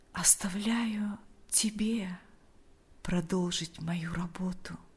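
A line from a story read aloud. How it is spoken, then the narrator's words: Quiet. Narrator (Russian): тихо произнес он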